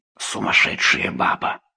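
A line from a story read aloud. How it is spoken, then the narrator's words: Muttering woman. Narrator (Russian): женщина бормоча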